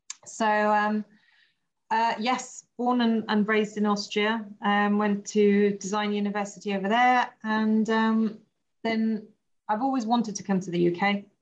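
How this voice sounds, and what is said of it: Groggy, not yet warmed-up voice. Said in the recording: “my voice hasn't woken up yet”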